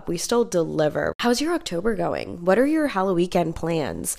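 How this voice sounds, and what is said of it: Sick, under-the-weather voice. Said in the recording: “excuse my voice... I am obviously a little under the weather”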